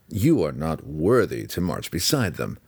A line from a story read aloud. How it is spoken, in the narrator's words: Drizzt added, his tone dripping with sarcasm